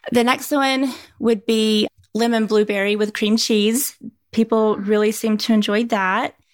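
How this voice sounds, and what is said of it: East Tennessee accent, mildly country. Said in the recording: “I'm getting an accent. ... I'm from East Tennessee. ... I grew up in a small town out in the country. ... Well, it didn't seem like super country.”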